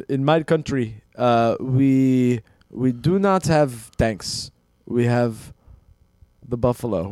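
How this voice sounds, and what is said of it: Weak put-on generic African accent. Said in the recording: “I think you could have done a generic African accent ... I can't do accents, dude.”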